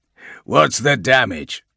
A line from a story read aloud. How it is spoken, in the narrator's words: he growls